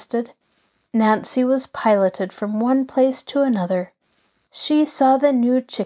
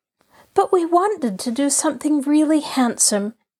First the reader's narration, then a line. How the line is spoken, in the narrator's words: Allie cried in disappointment